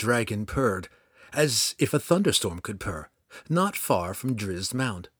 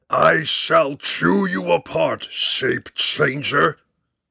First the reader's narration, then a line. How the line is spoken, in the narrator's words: The dragon bellowed